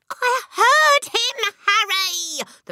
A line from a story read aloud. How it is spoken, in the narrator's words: the mother shrieked, still quaking